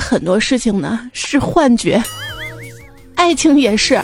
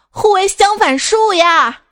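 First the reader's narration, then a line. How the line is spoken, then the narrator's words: Angry shout. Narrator (Chinese): 这女人继续气愤的喊道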